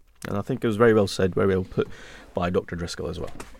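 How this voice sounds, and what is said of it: Scottish accent mixed with northern English. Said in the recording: “the Scottish accent ... Some people say I've lost my Scottish accent. ... I think it's kind of transformed to some kind of Midlands, Northeast, Northwest type of, I don't know, some kind of concoction”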